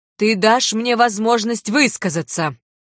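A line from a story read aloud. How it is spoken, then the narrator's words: Harsh bark. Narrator (Russian): Рявкнул он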